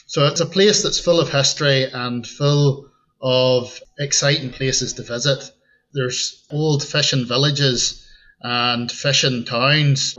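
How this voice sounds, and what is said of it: Northern Irish accent with Scottish tinge. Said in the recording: “a lot of the people there are referred to the Scots-Irish or the Ulster Scots. And that's because we have that direct link with Scotland. And you'll hear that tinge in my accent as well.”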